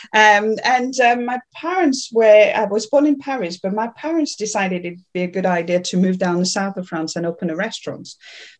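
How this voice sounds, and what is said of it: Slight French accent. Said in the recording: “is French, yeah, so you'll hear a little bit of my accent”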